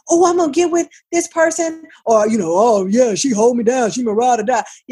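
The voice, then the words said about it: Imitates another person's voice. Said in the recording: “Yes, I'm doing impersonations now.”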